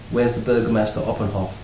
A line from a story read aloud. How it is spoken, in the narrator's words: he asked